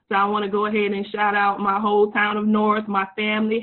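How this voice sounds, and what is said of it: Southern US accent, Louisiana-like. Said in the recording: “I'm not from Louisiana, even though my accent may sound like it. I'm originally from South Carolina.”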